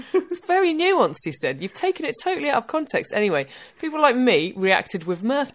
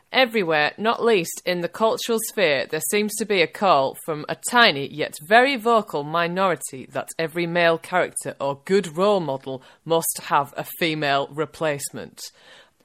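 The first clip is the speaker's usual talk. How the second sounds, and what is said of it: Put-on Northern English accent. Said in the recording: “I'm going to do the accent if you don't mind, Mick... Apologies to Northerners everywhere.”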